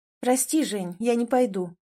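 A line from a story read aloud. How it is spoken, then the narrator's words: Calm reply. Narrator (Russian): ответила спокойно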